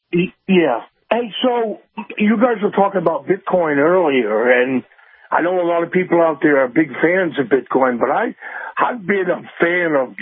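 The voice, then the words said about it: Western New England accent. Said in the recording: “that accent of yours ... what they call a Western New England accent”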